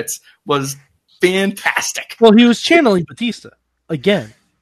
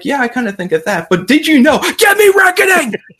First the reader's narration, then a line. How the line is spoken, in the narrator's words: starts screaming at the camera again